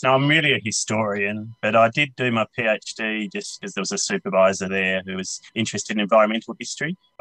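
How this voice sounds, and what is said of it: Australian accent. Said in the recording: “as people will no doubt be able to tell straight away from your accent, you're Australian”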